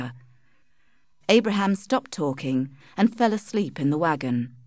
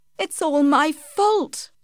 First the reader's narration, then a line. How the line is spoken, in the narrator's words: cried Tess